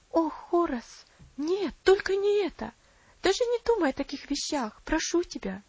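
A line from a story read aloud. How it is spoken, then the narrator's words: Tearful exclamation. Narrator (Russian): воскликнула Аделаид со слезами на глазах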